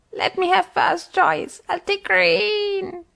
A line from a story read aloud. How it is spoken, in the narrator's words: screeched the parrot